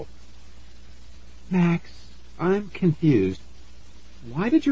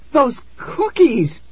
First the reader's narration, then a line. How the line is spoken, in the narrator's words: she screamed